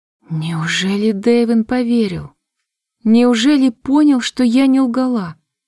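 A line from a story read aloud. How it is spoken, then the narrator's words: Slightly trembling voice. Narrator (Russian): Но я все же уточнила чуть дрогнувшим голосом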